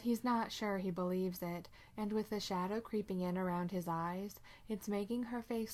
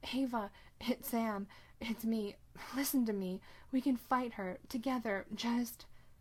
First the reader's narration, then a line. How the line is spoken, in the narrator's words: Sam chokes for breath, struggling too hard to pull anything together but words, still trying to reach Ava and gasping